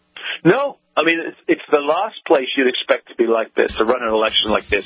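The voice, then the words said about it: English accent. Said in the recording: “You're from England, I assume, right, with that accent.”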